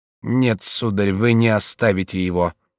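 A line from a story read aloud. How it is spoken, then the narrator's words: Hollow, gloomy, deadened voice. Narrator (Russian): проговорила глухим голосом мрачная, помертвевшая Алоиза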